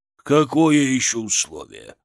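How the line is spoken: Growl. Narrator (Russian): рыкнул Шаповалов

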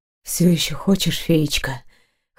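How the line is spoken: Husky whisper. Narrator (Russian): хрипло прошептал Дайрен

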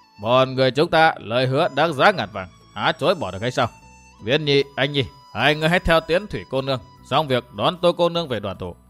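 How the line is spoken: Loud laugh, then solemn. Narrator (Vietnamese): Bỗng nhiên Phản Thao phá lên cười to, bằng một giọng trang nghiêm bảo

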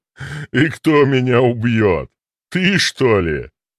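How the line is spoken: Sudden loud laugh. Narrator (Russian): Неожиданно громко рассмеялся диакон

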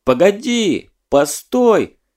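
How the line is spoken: Shouting after someone. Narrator (Russian): крикнул вдогонку Лёва

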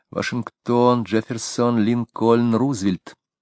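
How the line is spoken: Whispered prompt. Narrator (Russian): Квинни, которая сидела позади нее, попыталась шепотом подсказать ей

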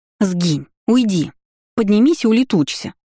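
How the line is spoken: Pleading sing-song chant. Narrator (Russian): Взмолилась, исполняя приказы как частушки

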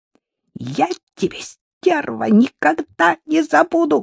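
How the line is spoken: Woman shrieking over phone. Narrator (Russian): взвизгнул женский голос в трубке

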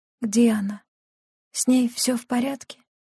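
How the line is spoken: Barely audible creaky whisper. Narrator (Russian): Ее скрипучий шепот был едва различим

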